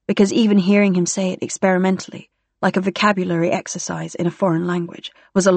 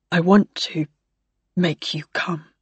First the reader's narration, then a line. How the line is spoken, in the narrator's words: he murmured